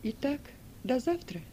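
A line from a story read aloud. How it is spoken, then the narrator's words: Calm reply. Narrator (Russian): Спокойно отозвалась Сильва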